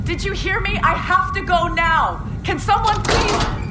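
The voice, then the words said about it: Shouting. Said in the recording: “sorry for shouting”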